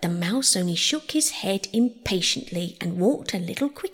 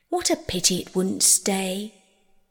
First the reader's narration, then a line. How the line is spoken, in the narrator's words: sighed the lorry